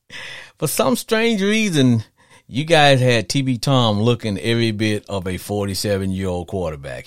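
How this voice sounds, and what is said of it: Cajun Southern US accent. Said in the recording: “I got a Cajun Southern accent anyway ... my accent come from? You know, part of little Louisiana, little Arkansas, little God knows wherever I've been”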